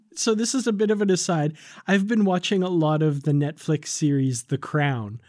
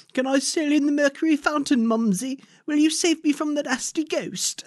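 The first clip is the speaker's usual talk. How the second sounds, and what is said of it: Very posh British accent. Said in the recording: “that very posh British accent.”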